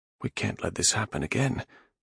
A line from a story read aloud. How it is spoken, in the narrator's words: Nath muttered